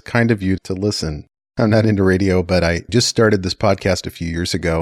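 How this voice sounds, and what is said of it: Smooth radio announcer voice. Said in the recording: “your voice, you have like the perfect radio announcer voice”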